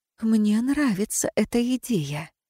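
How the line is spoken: Inspired whisper. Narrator (Russian): вдохновленно прошептала

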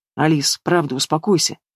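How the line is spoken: Said quietly. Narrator (Russian): тихо сказал Игнат

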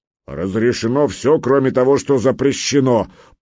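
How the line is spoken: Booming grey-haired giant. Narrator (Russian): прогудел седой великан

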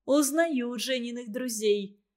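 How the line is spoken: Laughing. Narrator (Russian): Волкова засмеялась и сказала

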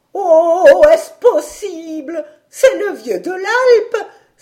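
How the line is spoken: Grandmother, joyfully surprised. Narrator (French): s'écria la grand-mère joyeusement surprise

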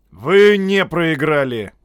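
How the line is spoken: Shout. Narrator (Russian): крикнул Додд

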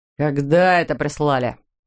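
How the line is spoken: Angry growl. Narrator (Russian): прорычал он

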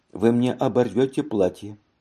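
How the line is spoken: Calm smiling. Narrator (Russian): сказала, спокойно улыбаясь

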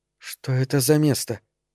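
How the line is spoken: Quiet question. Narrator (Russian): тихо спросила

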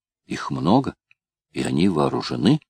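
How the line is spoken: Frightened whisper. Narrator (Russian): шепнула сестре, испуганная Бренда

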